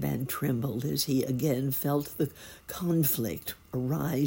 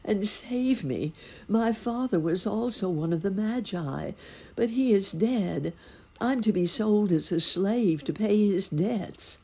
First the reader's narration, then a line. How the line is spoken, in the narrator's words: she cried